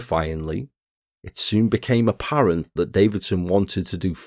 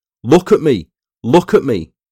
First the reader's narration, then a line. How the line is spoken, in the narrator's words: started shouting at me